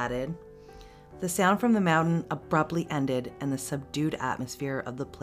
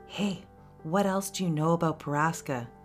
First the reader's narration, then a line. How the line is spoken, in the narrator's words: I whispered to him